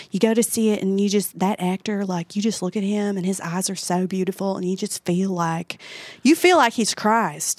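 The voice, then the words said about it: Imitates a woman's regional accent. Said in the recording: “I'm doing that accent because that was her accent.”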